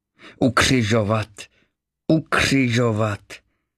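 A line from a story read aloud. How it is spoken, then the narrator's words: Shouted by a crowd. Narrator (Czech): vykřikli vrchní kněží a strážní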